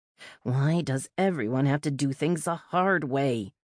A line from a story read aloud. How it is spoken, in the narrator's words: grumbled